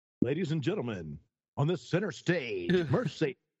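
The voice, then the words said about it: Strip club DJ announcer voice. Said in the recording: “do your voice... I've been a good stripper DJ back in the day”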